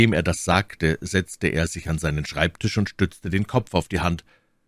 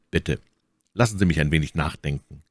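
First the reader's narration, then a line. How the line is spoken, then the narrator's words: Calm. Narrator (German): sagte ruhig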